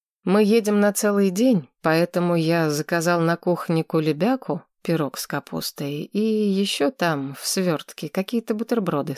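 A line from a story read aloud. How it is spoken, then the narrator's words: Plain. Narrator (Russian): сказал Федор Григорьевич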